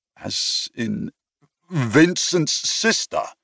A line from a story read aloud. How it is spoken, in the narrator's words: I sputtered